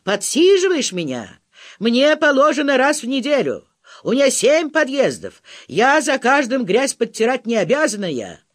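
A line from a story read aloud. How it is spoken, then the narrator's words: Yelling. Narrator (Russian): Орала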